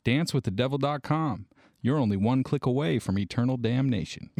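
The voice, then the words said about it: Put-on accent. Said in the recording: “the accent came as you went along”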